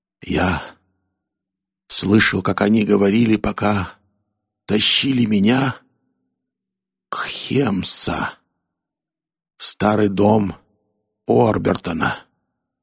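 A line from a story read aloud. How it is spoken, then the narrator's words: Breathless mutter. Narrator (Russian): задыхаясь, пробормотал Фамум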